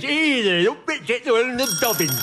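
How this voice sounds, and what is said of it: Poor put-on northwest English accent. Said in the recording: “That wasn't any particular dialect. It was a sort of bastardization... Of a northwest accent.”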